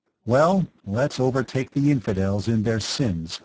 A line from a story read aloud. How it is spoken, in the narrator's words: Birkenwald said